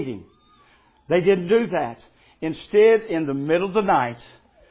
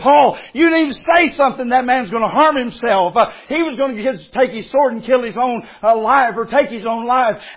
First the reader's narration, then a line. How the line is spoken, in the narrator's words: Paul cried out